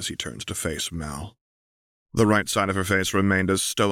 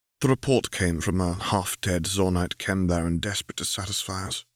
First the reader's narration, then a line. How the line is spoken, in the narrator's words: she replied